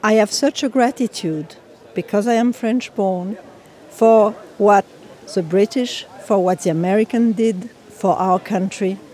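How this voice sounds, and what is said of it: French accent. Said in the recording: “You can hear from my accent that I am originally French.”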